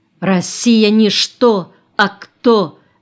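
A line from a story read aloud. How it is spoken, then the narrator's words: Stern, serious, restrained emotion. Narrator (Russian): неожиданно для всех строго и серьезно произнесла елочка, и странный оттенок глубокого сдерживаемого чувства зазвенел в ее голосе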